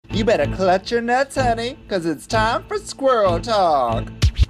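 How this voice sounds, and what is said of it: Silly put-on character voice. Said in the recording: “do that stupid voice.”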